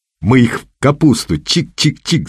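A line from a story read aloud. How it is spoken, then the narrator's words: Happy laughter. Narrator (Russian): Зайнулин счастливо рассмеялся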